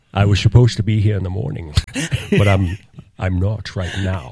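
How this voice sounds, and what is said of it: Imitates another person's voice. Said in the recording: “I do an impression of them ... I was going to do an impression of them”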